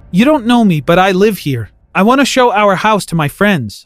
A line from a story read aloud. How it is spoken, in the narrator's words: I said